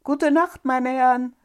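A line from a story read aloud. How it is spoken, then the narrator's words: Loud call. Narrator (German): rief laut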